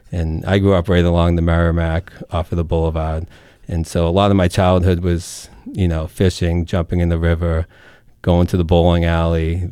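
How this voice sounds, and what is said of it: Merrimack Valley Massachusetts accent. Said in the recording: “the Merrimack Valley is is very unique, um, as you can probably hear in my accent. Um, you know, people that are just you know five miles away from the river don't have the accent”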